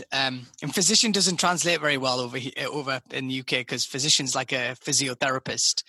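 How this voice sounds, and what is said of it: British accent. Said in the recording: “my beautiful British accent”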